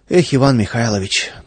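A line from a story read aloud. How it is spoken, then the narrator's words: Sighing. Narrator (Russian): только вздохнул Владыкин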